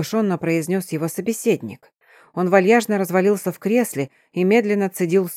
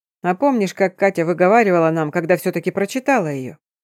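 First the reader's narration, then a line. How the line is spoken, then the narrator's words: Chuckling man. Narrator (Russian): хохотнул все тот же мужчина с книгой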